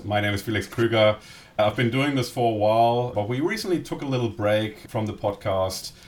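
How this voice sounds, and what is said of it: German accent in English. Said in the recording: “my German accent”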